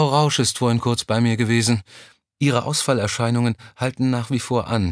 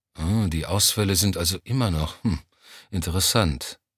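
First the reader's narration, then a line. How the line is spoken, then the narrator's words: Absent-minded muttering. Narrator (German): murmelte Johnny abwesend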